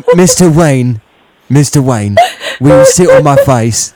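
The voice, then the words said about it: British imitation of another person's voice. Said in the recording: “a British character ... My Michael Caine impression.”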